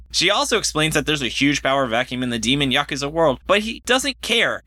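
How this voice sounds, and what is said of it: Exaggerated announcer-style radio voice. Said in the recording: “I don't know why I read the plot summary in such a strange voice. That was my radio voice.”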